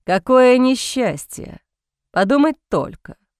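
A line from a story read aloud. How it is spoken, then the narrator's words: Drawling, smirking. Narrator (Russian): Протянул Сент-Мор, и его рот скривился в усмешке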